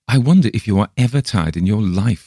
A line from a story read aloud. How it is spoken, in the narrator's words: I exclaim by and by, half peevishly